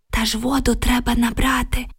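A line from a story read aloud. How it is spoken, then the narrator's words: Whispered reply. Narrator (Ukrainian): прошепотіла Оксана у відповідь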